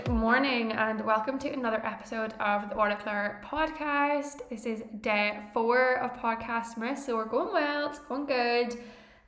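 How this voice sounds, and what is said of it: Slightly congested, hoarse voice. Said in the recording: “I don't know if you can tell by my voice that there is a change... I can hear it in my voice”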